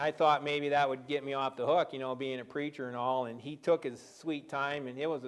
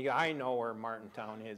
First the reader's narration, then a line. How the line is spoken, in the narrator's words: he said